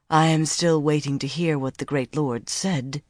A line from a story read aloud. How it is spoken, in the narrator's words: Semirag murmured